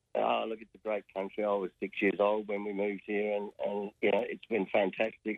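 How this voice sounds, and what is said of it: Australian accent. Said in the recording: “That's not a Leitrim accent I'm hearing now. It's sounding pretty Aussie to me.”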